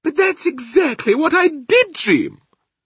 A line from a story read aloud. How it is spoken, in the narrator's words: the Queen cried out